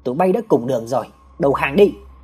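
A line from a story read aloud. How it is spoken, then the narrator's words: Commander barking. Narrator (Vietnamese): Một tên chỉ huy quát lên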